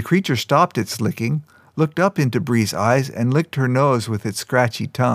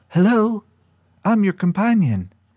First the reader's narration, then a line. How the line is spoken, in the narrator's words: Bree said in a tiny, childlike voice